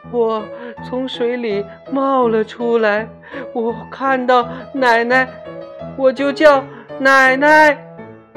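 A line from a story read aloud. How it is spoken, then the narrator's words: Frightened sobbing girl. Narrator (Chinese): 那个叫乔乔的小女孩在惊魂未定的状态里抽泣着，向人们诉说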